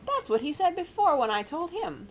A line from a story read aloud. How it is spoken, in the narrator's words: squeaked Rosie indignantly